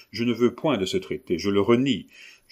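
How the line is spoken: Brisk. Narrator (French): a-t-il dit vivement

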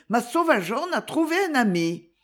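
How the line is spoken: Exclaimed. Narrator (French): s'écria-t-elle

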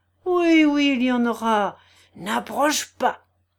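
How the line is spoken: Furious yelling. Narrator (French): vociféra Rogojine hors de lui

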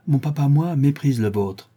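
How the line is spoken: Exclaimed. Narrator (French): s'écria Linton

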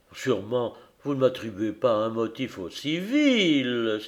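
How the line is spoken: Exclaiming. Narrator (French): s'écria-t-il

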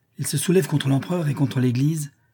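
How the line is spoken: Exclaimed. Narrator (French): s'écria Arzas

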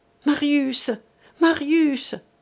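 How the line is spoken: Exclamation. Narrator (French): s'écria Madeleine

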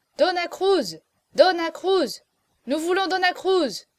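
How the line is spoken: Crowd shouting. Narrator (French): criait-on dans le salon

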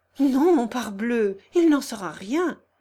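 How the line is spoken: Young man exclaiming. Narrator (French): s'écria le jeune homme

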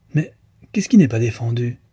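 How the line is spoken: Exclamation. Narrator (French): s'écria Deslauriers

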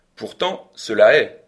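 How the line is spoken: Cold reply. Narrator (French): répondis-je froidement

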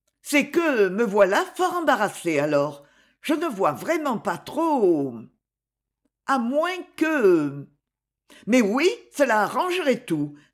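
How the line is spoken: Triumphant exclamation. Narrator (French): s'écria-t-elle d'un ton triomphant

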